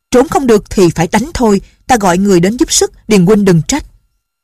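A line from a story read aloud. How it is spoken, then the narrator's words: Shouted. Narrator (Vietnamese): Chàng quát lên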